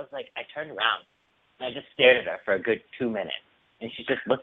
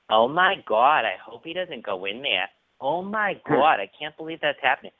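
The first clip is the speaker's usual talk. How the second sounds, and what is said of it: Annoying Boston accent. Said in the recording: “annoying Boston accent. Not like the cool Boston accent, the annoying one.”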